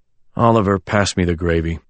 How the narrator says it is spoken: My father sighed, and said

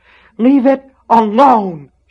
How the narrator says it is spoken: she screamed

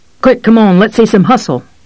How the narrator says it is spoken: the cop said, looking nervously around

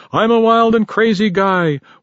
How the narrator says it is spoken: the driver hung out the window shouting

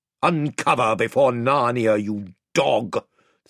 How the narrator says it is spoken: thundered the Lord Byrne

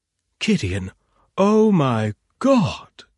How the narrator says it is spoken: she exclaimed delightedly

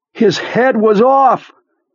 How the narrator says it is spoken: Beaver suddenly said from the storeroom's overhead speakers, his voice so loud and sudden

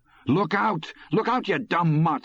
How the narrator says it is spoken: Morris shouted

